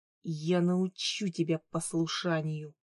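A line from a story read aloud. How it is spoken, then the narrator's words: Hissed. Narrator (Russian): прошипел Хью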